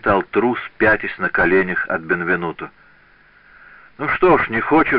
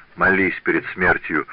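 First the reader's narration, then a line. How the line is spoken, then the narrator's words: Plain. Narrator (Russian): сказал он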